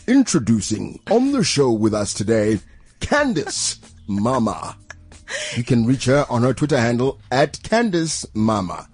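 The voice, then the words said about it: TV show presenter voice. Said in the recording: “do your top billing voice. Like, let's do your top billing voice ... Was that your top billing?”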